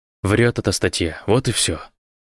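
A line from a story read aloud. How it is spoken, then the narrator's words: Sharp reply. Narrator (Russian): резко ответил Ави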